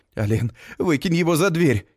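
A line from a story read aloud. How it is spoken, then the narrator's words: Frightened plea. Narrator (Russian): испуганно просит Элиза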